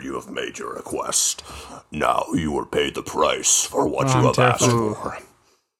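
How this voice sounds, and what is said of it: Menacing demon character voice. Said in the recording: “doing a demon voice”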